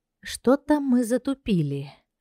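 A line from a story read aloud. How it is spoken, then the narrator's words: Sighing. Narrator (Russian): вздохнула Зинка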